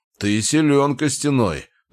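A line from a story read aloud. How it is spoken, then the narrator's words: Deep bass voice. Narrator (Russian): пробасил Клык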